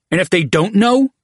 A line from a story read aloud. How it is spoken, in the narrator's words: Roar demanded